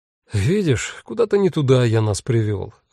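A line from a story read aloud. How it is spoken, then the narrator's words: Sighing. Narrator (Russian): вздохнул Анджей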